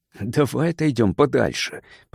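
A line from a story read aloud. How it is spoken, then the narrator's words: Whisper. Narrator (Russian): прошептал Кар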